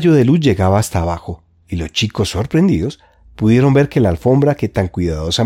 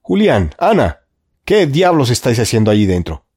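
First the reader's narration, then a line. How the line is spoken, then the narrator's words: Uncle shouting. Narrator (Spanish): gritó tío Quintín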